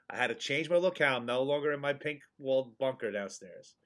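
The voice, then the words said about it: Quiet, monotone, slightly sniffly voice. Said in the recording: “I got to be a little monotone. I got to sound a little down... I don't have the sniffles. It does sound like it”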